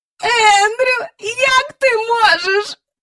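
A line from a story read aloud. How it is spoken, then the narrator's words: Moaning. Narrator (Ukrainian): простогнала міс Джайворон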